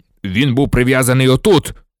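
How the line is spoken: Furious bark. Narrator (Ukrainian): розлючено гаркнув Кат

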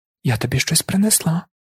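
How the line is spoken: Bride-to-be whispering. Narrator (Ukrainian): шепнула майбутня молода

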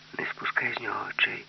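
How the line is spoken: Whispering. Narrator (Ukrainian): Аліса сказала пошепки

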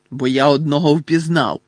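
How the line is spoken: Growl. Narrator (Ukrainian): прогарчав Гегріт

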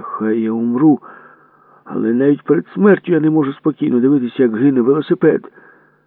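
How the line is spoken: Desperate shout. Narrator (Ukrainian): Отчайдушно закричав

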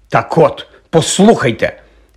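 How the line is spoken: Said angrily. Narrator (Ukrainian): сказав, сердито поглядаючи

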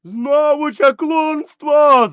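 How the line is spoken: Crowd shouting. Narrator (Ukrainian): закричали селяни

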